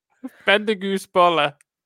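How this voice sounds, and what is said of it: Put-on German accent. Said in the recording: “In a German accent, please.”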